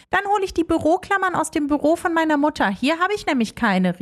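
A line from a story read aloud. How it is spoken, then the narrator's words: Calling out while leaving. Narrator (German): rief Leonie beim Rausgehen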